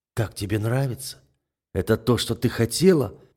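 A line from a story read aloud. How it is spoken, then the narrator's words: Breathless broken whisper. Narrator (Russian): срывающимся шепотом спрашиваю я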